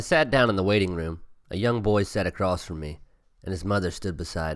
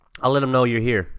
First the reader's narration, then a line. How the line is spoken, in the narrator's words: she said